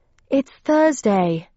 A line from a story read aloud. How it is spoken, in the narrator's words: panted, running